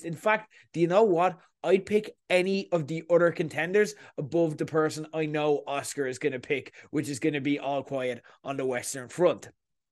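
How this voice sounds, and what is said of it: Irish accent. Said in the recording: “even if you're not from Ireland ... you're hearing my accent”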